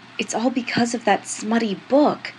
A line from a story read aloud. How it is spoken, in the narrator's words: Julian said, his voice a furious whisper